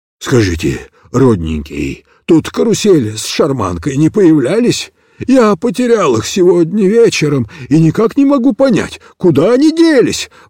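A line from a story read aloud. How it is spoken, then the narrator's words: Agitated old man mumbling. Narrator (Russian): взволнованно бормотал старый Явурок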